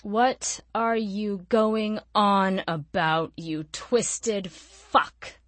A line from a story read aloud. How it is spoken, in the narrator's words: She spat the last, her body craving sleep